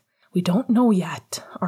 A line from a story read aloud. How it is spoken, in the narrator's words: Arthur breathed